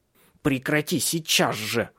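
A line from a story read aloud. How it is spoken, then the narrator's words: Furious hiss. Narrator (Russian): зашипел на нее Бенедикт, потеряв самообладание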